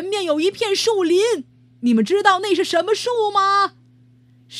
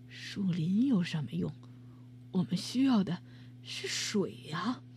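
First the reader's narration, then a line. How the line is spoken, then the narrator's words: Muttering quietly. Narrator (Chinese): 一个士兵小声嘀咕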